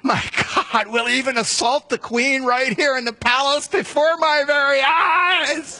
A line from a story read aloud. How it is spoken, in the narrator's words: He shouts out